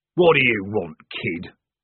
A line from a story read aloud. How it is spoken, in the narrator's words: growled the corporal